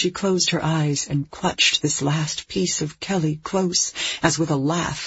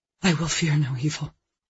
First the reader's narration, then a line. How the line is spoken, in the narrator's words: heard herself whisper